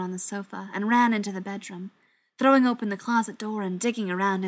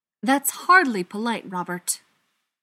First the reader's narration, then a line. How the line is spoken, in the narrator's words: Schechter said sharply